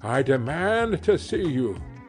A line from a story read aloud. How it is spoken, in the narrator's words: cried Utterson with a loud voice